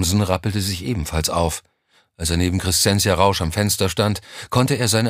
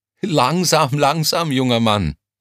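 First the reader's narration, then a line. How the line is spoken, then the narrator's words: Laughing. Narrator (German): lachte sie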